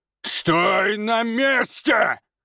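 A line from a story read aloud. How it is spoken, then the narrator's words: Roared. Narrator (Russian): Взревел он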